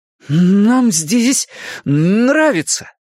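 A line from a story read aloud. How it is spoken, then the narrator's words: Sudden defiant exclamation. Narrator (Russian): внезапно и с вызовом воскликнул Билл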